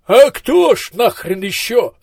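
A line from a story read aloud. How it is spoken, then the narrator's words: Desperate voice. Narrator (Russian): отчаянным голосом откликнулся Маздам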